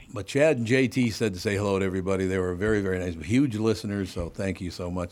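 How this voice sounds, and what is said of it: Distinctive, unusual voice. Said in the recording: “You just have a unique set of pipes. ... It's a weird voice.”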